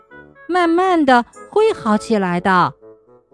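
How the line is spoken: Sighing explanation, mother. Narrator (Chinese): 火龙妈妈叹口气解释说

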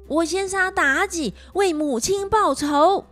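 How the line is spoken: Loud shouting. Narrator (Chinese): 太子又大叫着

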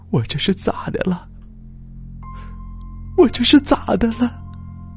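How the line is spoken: Helpless crying mutter. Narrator (Chinese): 我妈 哭了，哭得无依无靠，嘴里嘀咕着

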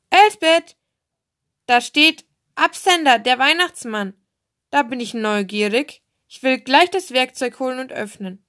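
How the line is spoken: Calling out. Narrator (German): rief

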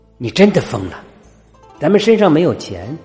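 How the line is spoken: Angry. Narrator (Chinese): 男人 愤怒的瞪着女人

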